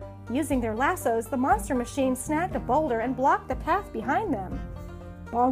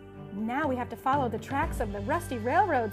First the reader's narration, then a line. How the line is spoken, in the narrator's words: said AJ